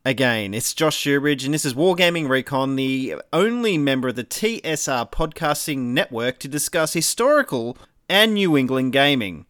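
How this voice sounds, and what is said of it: Australian accent. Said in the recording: “you're hearing an Australian accent”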